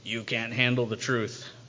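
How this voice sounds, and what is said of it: Weak Jack Nicholson impression. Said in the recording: “Jack Nicholson's character in A Few Good Men... Not a very good impression”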